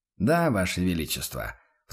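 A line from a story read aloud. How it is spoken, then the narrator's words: Matching snort. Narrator (Russian): в тон ему хмыкнул инквизитор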